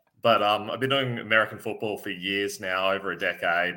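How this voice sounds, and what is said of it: Australian accent. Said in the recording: “I'm Australian, so I apologize for the accent”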